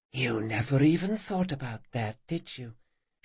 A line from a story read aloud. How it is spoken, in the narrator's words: she said, her voice a sly whisper